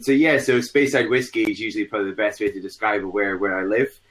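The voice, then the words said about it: Scottish accent. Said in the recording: “I'm from the border of the northeast of Scotland and the Highlands ... You can't tell from his voice.”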